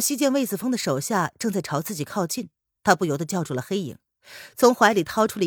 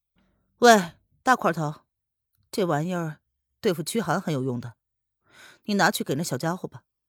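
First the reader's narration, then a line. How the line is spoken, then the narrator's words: Cold sneering. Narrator (Chinese): 黑影因为小溪的话冷冷一笑，随即便对魏子峰说道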